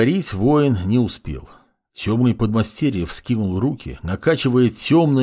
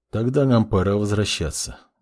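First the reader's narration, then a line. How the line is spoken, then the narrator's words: Flat emotionless voice. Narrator (Russian): безэмоциональным голосом ответил маг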